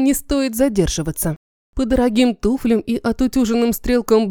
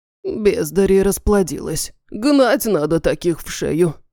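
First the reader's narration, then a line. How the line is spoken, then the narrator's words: Grumbled. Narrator (Russian): проворчал гендиректор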